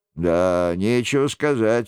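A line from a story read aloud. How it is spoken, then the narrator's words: Grumbling. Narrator (Russian): ворчал Шико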